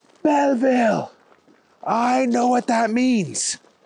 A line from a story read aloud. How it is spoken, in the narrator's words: someone yelled